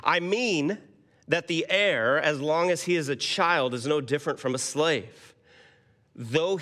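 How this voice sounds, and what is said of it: American accent. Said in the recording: “I do not have a British or a Scottish accent to read it. You'll just have to bear with my American.”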